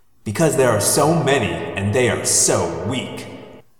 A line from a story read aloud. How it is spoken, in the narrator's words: Visser 3 sneered